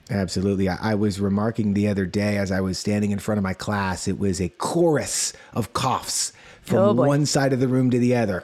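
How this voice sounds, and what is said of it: Raspy, slightly hoarse voice. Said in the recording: “you can probably hear in my voice,... a little raspier than usual”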